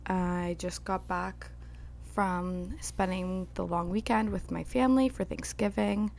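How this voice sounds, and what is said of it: Crackly, hoarse sick voice. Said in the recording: “my voice is going to be a little crackly today because I am suffering the student plague”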